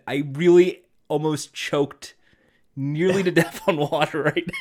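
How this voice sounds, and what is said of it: Usual voice. Nothing is said of it.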